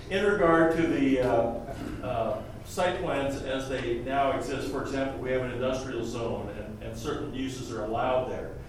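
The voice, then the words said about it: Loud, projecting teacher-like voice. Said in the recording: “Please be loud with the microphone ... I'll use my teacher voice.”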